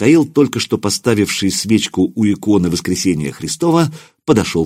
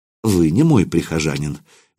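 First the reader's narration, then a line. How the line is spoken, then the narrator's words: Gentle. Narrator (Russian): мягко сказал отец Иоанн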